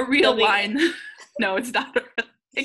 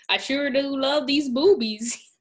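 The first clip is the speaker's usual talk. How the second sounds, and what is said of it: Put-on Southern accent. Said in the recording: “accent goes from normal to southern ... it's southern time now. I'll be speaking in a southern accent.”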